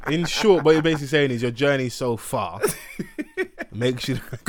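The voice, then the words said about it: Polished journalist-style voice. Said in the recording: “in my nice journalistic voice.”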